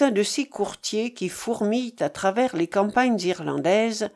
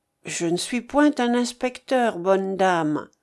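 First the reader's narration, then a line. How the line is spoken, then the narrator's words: Smooth, sugary reply. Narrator (French): répondit l'homme d'un ton doucereux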